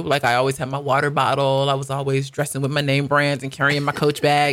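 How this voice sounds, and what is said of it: American accent. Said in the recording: “only my accent, really ... you can always spot an American”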